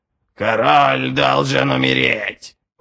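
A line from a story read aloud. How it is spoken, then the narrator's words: Eagle's creaking voice. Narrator (Russian): проскрипел орел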